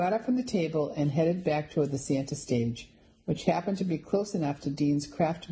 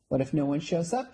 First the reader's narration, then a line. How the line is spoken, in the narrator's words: Penny asked